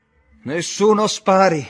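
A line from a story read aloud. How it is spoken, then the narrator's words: Yelled. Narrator (Italian): urlò Brown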